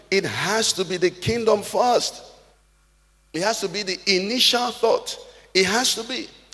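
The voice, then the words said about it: Shouting, loud preaching voice. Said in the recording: “Why am I shouting the way I'm shouting?”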